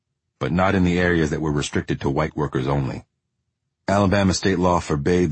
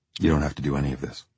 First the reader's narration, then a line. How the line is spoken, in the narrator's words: I said